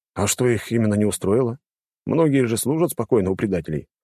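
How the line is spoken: Wry snort. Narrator (Russian): хмыкнул я

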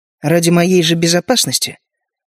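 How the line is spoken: Sarcastic tone. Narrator (Russian): язвительные нотки в моем голосе

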